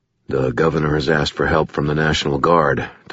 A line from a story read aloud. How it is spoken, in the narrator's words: Thomas said quietly